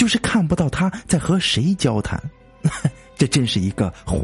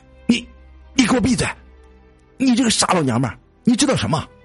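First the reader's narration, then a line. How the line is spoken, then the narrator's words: Angry shouting. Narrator (Chinese): 冲着那个方向喊起来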